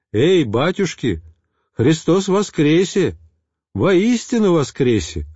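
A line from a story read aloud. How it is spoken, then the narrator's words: Joyful group reply. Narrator (Russian): радостно отвечали мы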